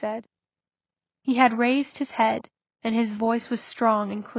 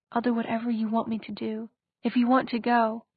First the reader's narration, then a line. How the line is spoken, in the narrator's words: she whispered